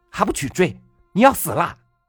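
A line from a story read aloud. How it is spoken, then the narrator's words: Fierce shouting. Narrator (Chinese): 老板娘恶狠狠的喊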